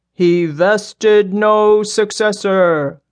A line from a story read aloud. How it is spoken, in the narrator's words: the big man boomed